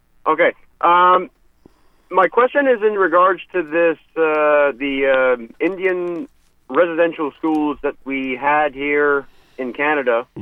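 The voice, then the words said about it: Canadian, French-accented English. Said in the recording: “You don't sound like you're from the United States. ... We don't speak Canadian. ... French is my first language”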